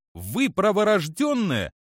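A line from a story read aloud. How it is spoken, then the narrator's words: Happy exclamation. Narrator (Russian): воскликнула Че Ри, луча счастливой улыбкой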